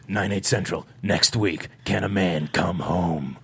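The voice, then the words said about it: Deep dramatic movie trailer voice. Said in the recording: “You sound like the scary man from Scream ... that was my trailer voice”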